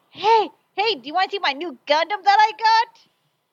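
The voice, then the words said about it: Childlike mocking voice. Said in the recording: “making me sound like a little kid”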